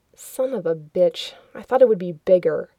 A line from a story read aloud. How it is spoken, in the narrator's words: He muttered